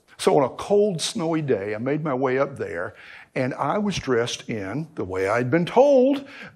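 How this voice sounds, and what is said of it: Noticeable regional accent. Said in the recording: “my accent. ... anybody that talks like that's going to show up for work in overalls and a straw hat”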